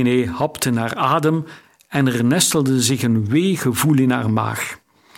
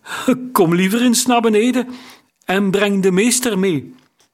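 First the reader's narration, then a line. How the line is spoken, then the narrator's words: Calling, unsteady voice. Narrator (Dutch): riep hij met onvaste stem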